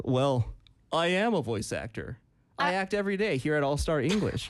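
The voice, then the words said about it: Polished radio announcer voice. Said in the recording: “you sound like kind of like a voice actor ... You do have a radio voice.”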